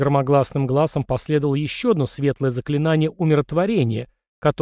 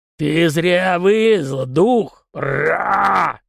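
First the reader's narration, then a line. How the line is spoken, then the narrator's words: Loud roar. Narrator (Russian): не менее громко прорычал Аргузор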